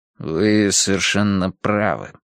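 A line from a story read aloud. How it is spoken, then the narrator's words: Gloomy agreement. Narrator (Russian): согласился Бейн мрачно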